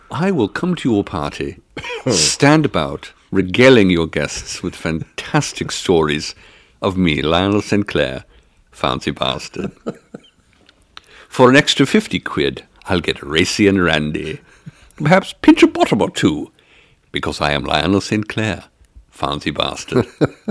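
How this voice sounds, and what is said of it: Posh British character accent. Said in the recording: “every British man should have Saint in the middle of his name ... I don't think you can go wrong with that accent”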